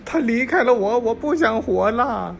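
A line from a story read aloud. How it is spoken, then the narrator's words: Sobbing. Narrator (Chinese): 小明大哭了出来，说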